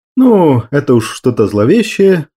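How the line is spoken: Young man laughing. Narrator (Russian): засмеялся парень

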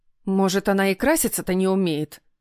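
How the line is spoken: Skeptical snort, mother. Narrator (Russian): скептически фыркнула мама

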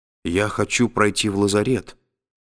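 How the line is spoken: Uncertain speech. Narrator (Russian): неуверенно проговорила

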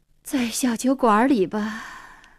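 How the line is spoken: Sighing. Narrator (Chinese): 黄英叹口气说

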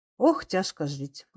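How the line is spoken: Tender. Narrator (Russian): ласково заметила Анна Степановна

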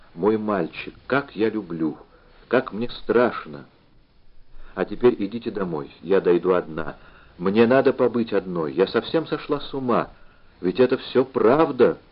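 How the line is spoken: Whisper. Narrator (Russian): прошептала она

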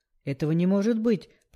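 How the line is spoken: Hoarse wheeze. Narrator (Russian): прохрипел Бакор

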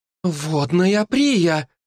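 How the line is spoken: Exclaimed by several girls. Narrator (Russian): воскликнули остальные девушки

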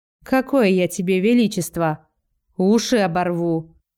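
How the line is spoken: Mock-threatening. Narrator (Russian): грозно говорит Робин, а у самого глаза смеются

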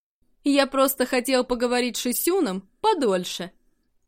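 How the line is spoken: Mocking. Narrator (Russian): насмешливо произнес Чуньгуан

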